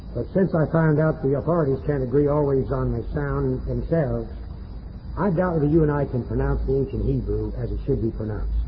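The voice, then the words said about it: Southern US Florida accent. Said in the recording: “It is with a Georgia accent, rather a Florida accent. It's cracker Greek and cracker Hebrew”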